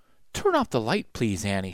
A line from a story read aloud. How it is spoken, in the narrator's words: she said softly